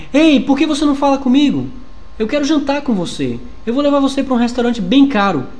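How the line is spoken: Shouted. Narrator (Portuguese): Ele grita

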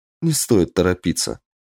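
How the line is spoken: Gentle, affectionate female voice. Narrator (Russian): ласково сказала она

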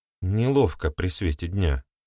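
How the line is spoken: Quiet. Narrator (Russian): тихо ответила супруга

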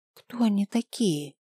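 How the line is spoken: Nervous whisper. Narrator (Russian): прошептала нервно

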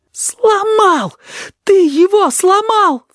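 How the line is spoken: Sobbing. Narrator (Russian): всхлипнул кузнечик

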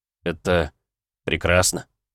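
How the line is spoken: Muttered. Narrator (Russian): пробормотал я

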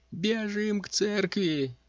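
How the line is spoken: Hermit's shriek. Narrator (Russian): взвизгнул отшельник

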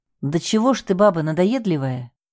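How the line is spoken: Angry muttering. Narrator (Russian): в сердцах буркнул

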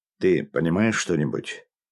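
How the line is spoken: Whisper. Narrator (Russian): шепнул Новикову Кузнецов

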